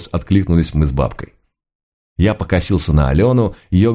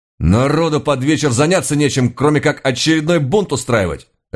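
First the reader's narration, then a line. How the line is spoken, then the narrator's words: Barking. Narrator (Russian): рявкнул я на него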